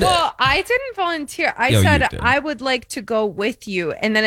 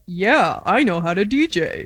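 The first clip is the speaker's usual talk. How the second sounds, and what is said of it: Imitates another person's voice. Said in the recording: “That's not how I sound. ... Great Eric impression.”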